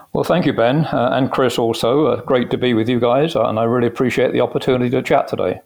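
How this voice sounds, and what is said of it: British English accent. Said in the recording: “great accent ... I came from the UK originally. You could probably guess that uh, from my accent.”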